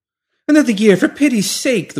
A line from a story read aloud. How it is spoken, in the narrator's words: the woman pleaded